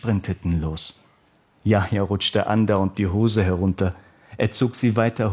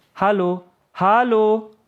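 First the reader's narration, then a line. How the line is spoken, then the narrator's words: Calling after someone. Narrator (German): rief Yahya einer Kameradin nach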